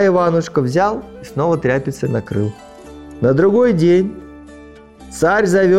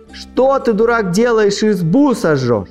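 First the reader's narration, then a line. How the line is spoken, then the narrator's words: Frightened brothers shouting. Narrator (Russian): Братья испугались и закричали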